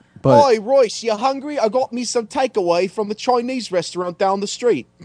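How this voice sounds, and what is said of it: Convincing put-on British accent. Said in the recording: “accent's way better than his ... I thought there was a real British guy on the show for a second.”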